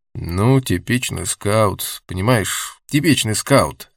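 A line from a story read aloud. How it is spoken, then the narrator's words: Plain. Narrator (Russian): ответил Сергеев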